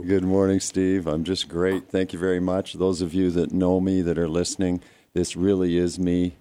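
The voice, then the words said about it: Voice sounds unusually different. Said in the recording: “My allergies kicked in a couple of days ago, so my voice has gone completely different”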